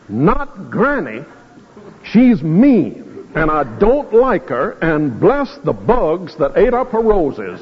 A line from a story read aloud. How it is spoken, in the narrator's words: said through clenched teeth